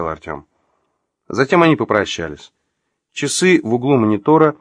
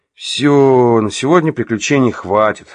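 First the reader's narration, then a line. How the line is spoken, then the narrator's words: Said to himself. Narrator (Russian): сказал сам себе Артем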